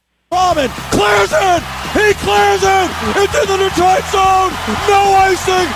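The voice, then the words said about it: Very excited, emotional commentary. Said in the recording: “he's getting emotional ... He's really excited about his team ... He's the most obnoxious play-by-play guy there is out there.”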